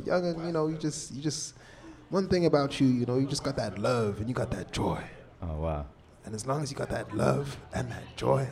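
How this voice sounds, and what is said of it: Poor imitation of a man's accent. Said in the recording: “bad impression ... I'm doing the worst accent ever”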